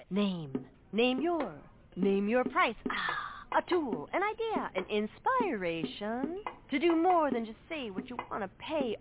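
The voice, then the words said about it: Beat poet character voice. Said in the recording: “my impression of a beat poet”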